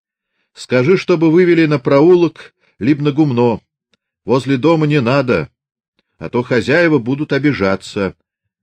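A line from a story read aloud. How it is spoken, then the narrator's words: Shouted after them. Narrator (Russian): крикнул вслед им Фомин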